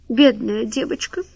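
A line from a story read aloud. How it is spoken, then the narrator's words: Sobbing. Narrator (Russian): всхлипнула Вальмира Александровна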